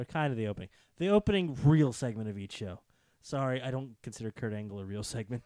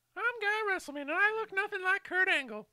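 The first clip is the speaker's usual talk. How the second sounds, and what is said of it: Imitates another person's voice. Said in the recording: “doing a voice? That's not what Guy Russellman sounds like.”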